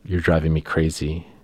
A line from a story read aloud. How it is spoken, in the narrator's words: Albert says very softly